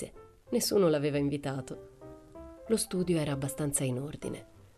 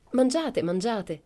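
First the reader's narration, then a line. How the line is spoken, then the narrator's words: Worried nanny exclaiming. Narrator (Italian): esclamava la nene preoccupata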